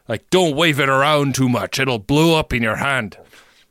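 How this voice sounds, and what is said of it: Bad unidentifiable put-on accent. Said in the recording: “I don't even know what accent that was, man. That was bad.”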